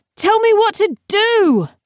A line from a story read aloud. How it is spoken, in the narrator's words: She hollered back